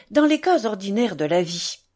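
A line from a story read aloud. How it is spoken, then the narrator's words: Smug pedantic tone. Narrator (French): proféra-t-il d'un ton satisfait et doctoral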